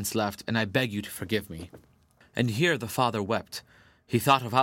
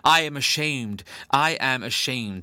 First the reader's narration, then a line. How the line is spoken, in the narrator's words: she exclaimed in broken tones